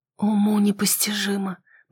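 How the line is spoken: Whisper. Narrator (Russian): прошептала

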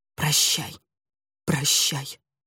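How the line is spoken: Whispered. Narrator (Russian): Он шептал

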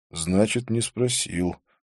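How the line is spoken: Frowning mutter. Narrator (Russian): пробормотал Абдулла, нахмурившись

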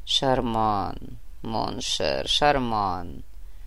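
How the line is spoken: Purring. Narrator (Russian): промурлыкал Фома

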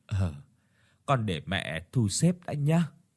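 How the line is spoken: Soft sigh. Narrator (Vietnamese): bác Thắm chỉ khẽ thở dài

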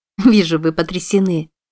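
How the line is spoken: Laughing. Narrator (Russian): рассмеялась Уилла

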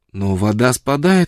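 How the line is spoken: Exclaiming. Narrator (Russian): воскликнула Фрона

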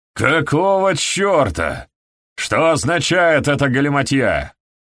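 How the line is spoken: Demanding shout. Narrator (Russian): требовательно окрикнул их Стэнли

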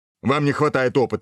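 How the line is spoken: Barked command. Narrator (Russian): рявкнул Дынькин и скомандовал

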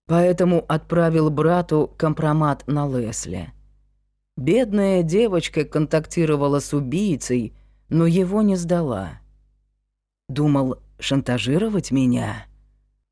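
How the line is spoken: Insinuating question. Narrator (Russian): Вкрадчиво спросил он

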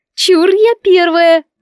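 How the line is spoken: Immediate squeal. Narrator (Russian): тут же взвизгнула Лолетта

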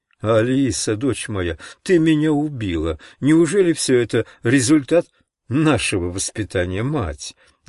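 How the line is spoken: Loud laughing speech. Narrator (Russian): громче всех смеясь говорил пастор

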